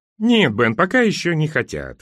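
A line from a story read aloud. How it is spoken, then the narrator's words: Chuckling. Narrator (Russian): хохотнул Кит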